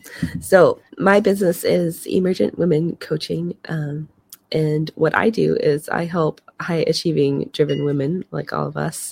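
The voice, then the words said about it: Raspy, hoarse voice. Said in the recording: “I'm gradually losing my voice more and more as we're recording ... She's recovering from a cold ... her voice was a little raspy.”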